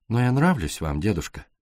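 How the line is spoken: Soft, gentle. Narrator (Russian): мягко сказала Пилар

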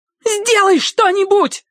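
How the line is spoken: Shriek. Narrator (Russian): завизжала она

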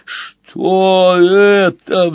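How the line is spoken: Shocked roar. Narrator (Russian): взревела потрясенная свинья

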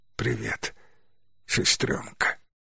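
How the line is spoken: Barely audible whisper. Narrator (Russian): чуть слышно прошептал тот

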